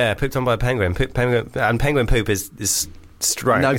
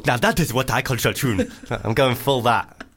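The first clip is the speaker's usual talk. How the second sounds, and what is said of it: Put-on accent, judged very good. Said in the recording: “Think about Morgan Freeman in Invictus ... You've gone full ... that was a very good accent”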